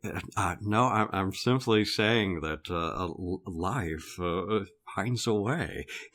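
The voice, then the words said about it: Imitates another person's voice. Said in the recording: “I'm going to give you a Jeff Goldblum impersonation ... that incredible impersonation ... that's the worst I've ever heard”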